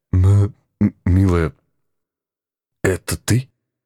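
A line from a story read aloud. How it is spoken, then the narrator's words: Stammering, breaking off. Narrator (Russian): Заикаясь не хуже присутствующего здесь Федора, начал было я, но осекся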